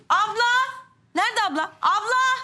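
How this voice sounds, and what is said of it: Shouting at the top of voice. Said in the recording (Turkish): “Bağırma avaz avaz.”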